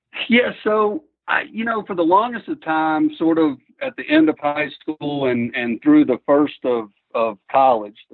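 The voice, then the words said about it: Western North Carolina accent. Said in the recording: “from your accent. You're not from Colorado. You actually grew up in Western North Carolina.”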